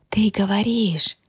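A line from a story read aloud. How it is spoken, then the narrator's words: Disbelieving whisper. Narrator (Russian): неверяще прошептала я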